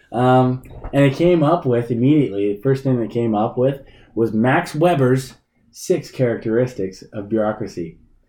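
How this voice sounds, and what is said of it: Slightly raspy voice. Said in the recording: “I got a little bit of a cold, so my voice is a little bit more raspy and more than usual.”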